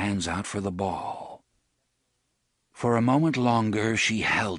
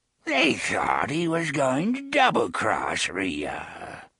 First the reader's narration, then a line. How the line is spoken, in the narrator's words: the old woman said, cackling